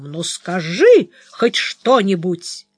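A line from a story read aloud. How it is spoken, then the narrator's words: Screaming at the top of lungs. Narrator (Russian): Флоренс заорала благим матом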